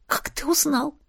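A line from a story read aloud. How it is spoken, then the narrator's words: Strangled whisper. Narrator (Russian): прошептала сдавленно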